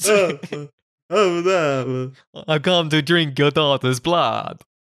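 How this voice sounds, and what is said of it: Clumsy put-on mafia-style accent. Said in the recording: “The mafia. I don't know how to do this accent.”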